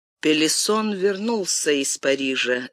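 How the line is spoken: Plain. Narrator (Russian): сказал Гурвиль

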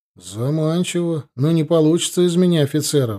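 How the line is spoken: Sighing. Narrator (Russian): вздохнул я

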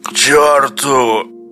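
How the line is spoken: Hoarse rasp. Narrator (Russian): хрипит геолог

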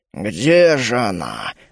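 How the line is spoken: Muttering. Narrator (Russian): бормотал он

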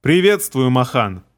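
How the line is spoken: Plain. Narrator (Russian): говорит Эхкиллер

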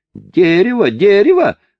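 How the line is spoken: Screaming. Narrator (Russian): завопил француз

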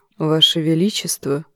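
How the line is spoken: Quiet speech. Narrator (Russian): тихо промолвил Квиберн

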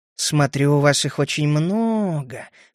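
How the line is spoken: Insinuating. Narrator (Russian): вкрадчиво продолжал я

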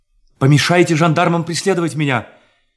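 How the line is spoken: Shouting. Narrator (Russian): крикнул он землекопам

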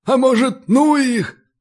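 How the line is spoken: Wheezing gnome. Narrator (Russian): просипел один из гномов

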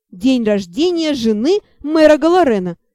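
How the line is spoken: Dragon laughing loudly. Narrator (Russian): почему-то расхохотался дракон

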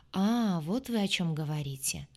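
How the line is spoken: Drawling. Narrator (Russian): протянул Санин

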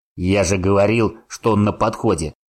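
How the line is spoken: Growl. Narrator (Russian): прорычал Гриша своему товарищу

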